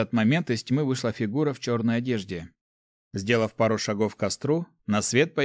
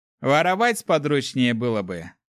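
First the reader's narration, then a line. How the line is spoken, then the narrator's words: Paladin's snort. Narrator (Russian): хмыкнул паладин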